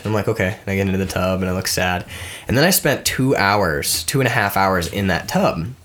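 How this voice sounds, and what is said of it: Congested, deep voice. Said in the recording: “I'm still congested and you'll notice my voice sounds deep and masculine”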